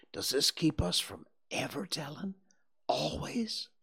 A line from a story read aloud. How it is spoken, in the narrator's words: whispered Huckleberry